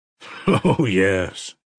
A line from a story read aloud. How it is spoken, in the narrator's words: laughed gloomily